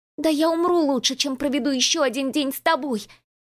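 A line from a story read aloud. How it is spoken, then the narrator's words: Hysterical shout. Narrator (Russian): истерично выкрикнула Рената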